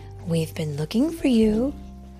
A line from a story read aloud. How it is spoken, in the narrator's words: his mother told him tenderly